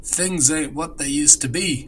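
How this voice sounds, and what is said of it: Put-on Cockney accent. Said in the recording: “I'm going to do it my best Cockney accent”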